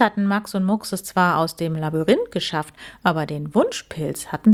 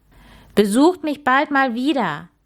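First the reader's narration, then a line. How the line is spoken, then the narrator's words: Cheerful call. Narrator (German): rief fröhlich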